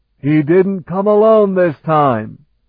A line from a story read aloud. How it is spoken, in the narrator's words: Takumi shouted